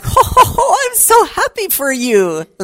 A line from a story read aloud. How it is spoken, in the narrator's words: laughter